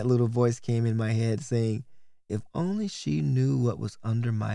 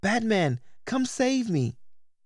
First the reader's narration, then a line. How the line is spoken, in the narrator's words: girls yelling